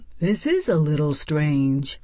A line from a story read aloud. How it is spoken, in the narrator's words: Mouse muttered